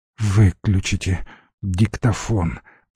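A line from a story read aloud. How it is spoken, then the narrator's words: Groaning. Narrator (Russian): простонал Курочкин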